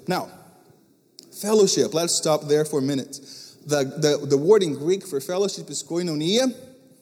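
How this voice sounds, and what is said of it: Portuguese-accented English. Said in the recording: “a Greek word spoken in English with a Portuguese accent”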